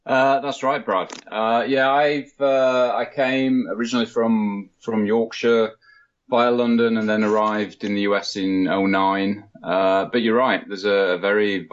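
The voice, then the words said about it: British accent, not American. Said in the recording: “you don't have an American accent. You're British originally.”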